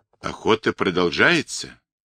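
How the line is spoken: Quiet, musing to himself. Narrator (Russian): тихо, словно разговаривая с невидимым собеседником, сказал он после минутного молчания

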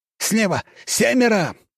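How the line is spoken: Man shouting. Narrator (Russian): выкрикнул мужчина

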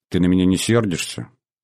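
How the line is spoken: Calm, friendly, not flirtatious. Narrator (Russian): Я говорил спокойно, по-дружески, без пошленькой игривости в голосе

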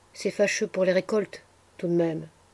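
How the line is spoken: Soft murmur. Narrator (French): murmura Cyprien à mi-voix

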